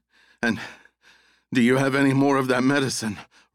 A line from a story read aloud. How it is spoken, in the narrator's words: Russ gasped